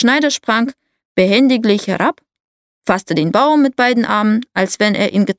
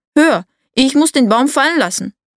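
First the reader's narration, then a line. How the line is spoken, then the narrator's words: Exhausted giant calling out. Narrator (German): Der Riese nachdem er ein Stück Wegs die schwere Last fortgeschleppt hatte konnte nicht weiter und rief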